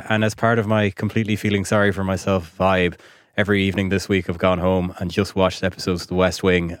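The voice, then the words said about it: Voice sounds unwell. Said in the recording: “you can probably hear from my voice this week that I'm not in the best nick. I'm a bit under the weather.”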